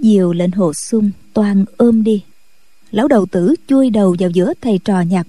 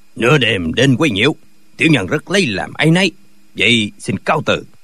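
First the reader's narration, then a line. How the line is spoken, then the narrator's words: Cold old man. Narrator (Vietnamese): Lão lạnh lùng nói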